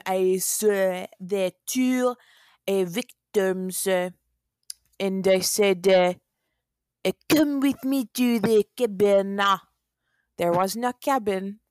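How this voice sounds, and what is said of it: Attempted Russian accent sounding French. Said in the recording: “That was a valiant effort. That was more French than Russian ... It was way more French than Russian ... impressive French for having no formal accent training”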